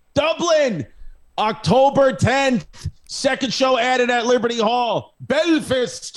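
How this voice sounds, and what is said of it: Usual voice. Nothing is said of it.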